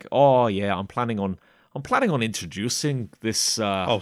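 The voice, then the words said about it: Put-on accent. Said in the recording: “stop trying to do the accent ... it's almost offensive.”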